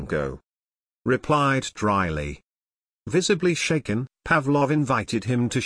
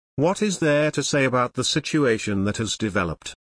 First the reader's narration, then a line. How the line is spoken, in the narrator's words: Pavlov sighed